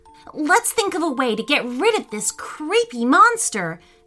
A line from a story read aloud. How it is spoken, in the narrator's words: shouted Laith